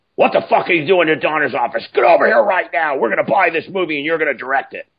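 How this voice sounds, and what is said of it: Raspy woman's voice. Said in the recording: “there's a really raspy voice like this”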